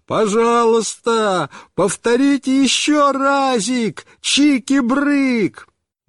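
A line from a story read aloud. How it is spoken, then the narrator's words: Shouted delightedly at top voice. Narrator (Russian): Он весь рассиялся от удовольствия и снова закричал папе во все горло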